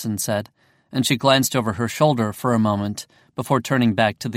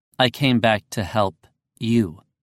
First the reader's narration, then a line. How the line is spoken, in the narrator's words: I said